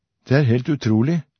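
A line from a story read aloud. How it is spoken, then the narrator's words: Plain reply. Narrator (Norwegian): svarte Myran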